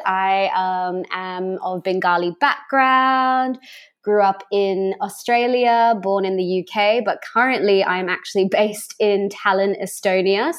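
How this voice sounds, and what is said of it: Mixed Australian and British accent. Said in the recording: “the coolest accent I think we've had on the podcast ... you sound like Crocodile Dundee ... you're trying to be really posh these days”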